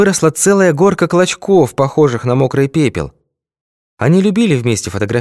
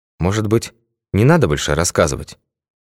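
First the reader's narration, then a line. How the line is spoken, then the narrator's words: Quiet question. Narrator (Russian): тихо спросил Башмаков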